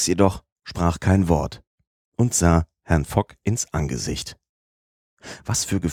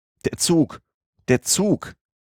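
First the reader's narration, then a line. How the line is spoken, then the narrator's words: Calling out. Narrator (German): rief er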